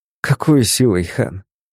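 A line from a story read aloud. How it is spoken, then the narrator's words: Sighing. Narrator (Russian): Вздохнул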